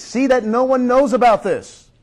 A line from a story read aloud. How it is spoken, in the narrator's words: Jesus warned them sternly